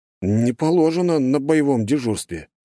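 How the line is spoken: Uncertain. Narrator (Russian): как-то неуверенно сказал Остапов

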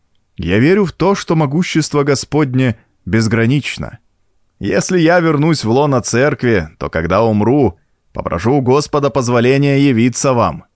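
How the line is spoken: Doctor laughing. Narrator (Russian): засмеялся доктор

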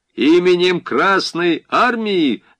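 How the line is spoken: Loud demand. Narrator (Russian): громко потребовал Дундич

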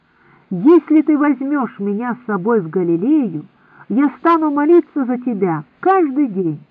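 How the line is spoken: Exclaiming woman. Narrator (Russian): Мария из Бейрота воскликнула

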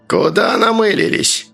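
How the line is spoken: Creaky, flat tone. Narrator (Russian): проскрипел начальник безликим тоном

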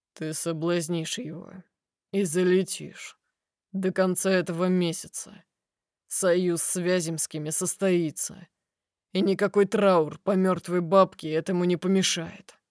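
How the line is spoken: Uncompromising tone. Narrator (Russian): сообщает бескомпромиссным тоном

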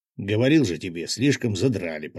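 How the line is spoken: Grumbled. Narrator (Russian): проворчал рыбак

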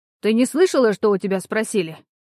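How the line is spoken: Rude mother. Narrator (Russian): грубо обратилась к ней мать

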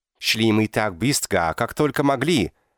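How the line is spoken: Barked, strong accent. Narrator (Russian): рявкнул заметным акцентом

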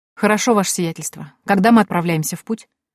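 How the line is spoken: Calm inquiry. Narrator (Russian): спокойно поинтересовалась я

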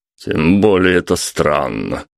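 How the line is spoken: Snorted. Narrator (Russian): хмыкнул Юра

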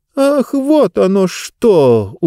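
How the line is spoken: Surprised exclamation. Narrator (Russian): удивленно воскликнула книга

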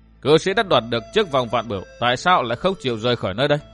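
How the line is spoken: Stern voice. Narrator (Vietnamese): Dương Viễn nghiêm giọng

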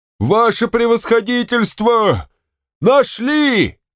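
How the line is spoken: Loud excited yell. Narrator (Russian): Афанасий заорал

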